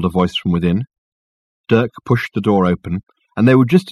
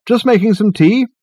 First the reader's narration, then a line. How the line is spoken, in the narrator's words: he called out